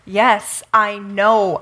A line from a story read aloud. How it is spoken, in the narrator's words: Elisha said